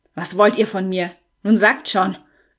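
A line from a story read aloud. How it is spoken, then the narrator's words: Growling. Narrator (German): knurrte George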